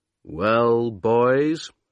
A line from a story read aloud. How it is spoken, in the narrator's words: Amundsen said slowly